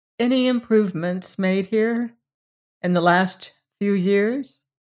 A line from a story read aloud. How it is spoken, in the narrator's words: he asked